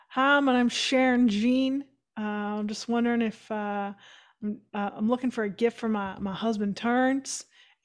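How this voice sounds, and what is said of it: Put-on deep Southern US accent. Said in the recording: “She puts on this deep South accent ... That's my pseudo South accent.”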